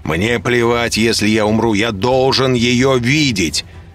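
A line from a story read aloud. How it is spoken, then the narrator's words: Desperate shouting. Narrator (Russian): кричал я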